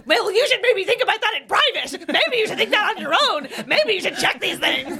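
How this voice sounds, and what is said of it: Angry, lecturing impression of commenters. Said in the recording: “Would you say the lesbian go-to emotion is angry? ... that was a good impression”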